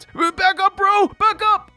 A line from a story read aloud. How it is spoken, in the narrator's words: shouts